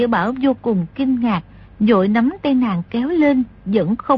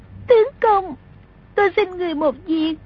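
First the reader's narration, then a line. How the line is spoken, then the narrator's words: Sobbing. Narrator (Vietnamese): nức nở nói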